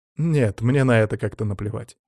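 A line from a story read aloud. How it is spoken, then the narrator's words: Snorting remark. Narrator (Russian): хмыкнул я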